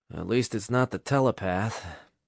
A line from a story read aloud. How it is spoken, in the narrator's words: Nick mumbled under his breath